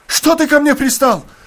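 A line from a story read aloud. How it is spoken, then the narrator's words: Shrieking in tears. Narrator (Russian): завизжал лесник, и крупные слезы брызнули из его глаз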